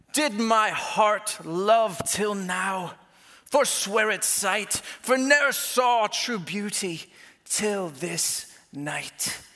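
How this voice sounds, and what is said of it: Sudden put-on accent reciting Shakespeare. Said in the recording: “I have no idea where that accent came from. It just like came over me”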